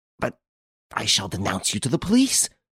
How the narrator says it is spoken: exclaimed indignantly

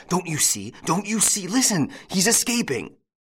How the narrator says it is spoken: the doctor, who choked out

